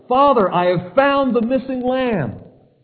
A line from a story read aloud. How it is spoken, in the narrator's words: I shouted to my father